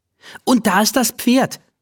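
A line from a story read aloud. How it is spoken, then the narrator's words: Calling out. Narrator (German): ruft sie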